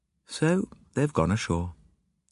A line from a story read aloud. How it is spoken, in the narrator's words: she said flatly